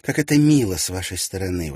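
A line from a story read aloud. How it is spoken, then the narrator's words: Exclamation. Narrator (Russian): воскликнула она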